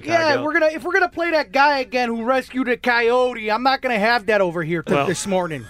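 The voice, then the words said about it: Heavy Chicago accent. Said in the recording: “a very heavy Chicago accent”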